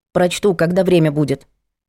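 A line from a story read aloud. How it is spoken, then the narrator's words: Curt grumble. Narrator (Russian): буркнула Митрофанова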